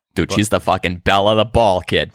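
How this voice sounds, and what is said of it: Put-on Boston accent. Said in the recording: “Boston accent ... start with the word fucking. And you need to end with the word either guy or kid. And then you can really slide right into that accent.”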